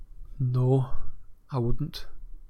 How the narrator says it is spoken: said Ron in a very quiet voice

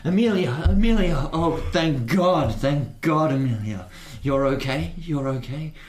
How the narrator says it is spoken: he's yelling out

